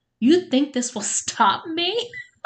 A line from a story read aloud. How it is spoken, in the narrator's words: Jessica laughed